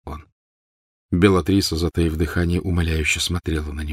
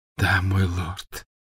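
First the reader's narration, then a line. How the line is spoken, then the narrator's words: Tearful grateful whisper. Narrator (Russian): прошептала Беллатриса, и глаза ее снова наполнились слезами благодарности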